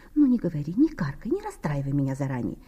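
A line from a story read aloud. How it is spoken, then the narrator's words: Soft exclamation, pretty woman. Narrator (Russian): тихонько воскликнула миловидная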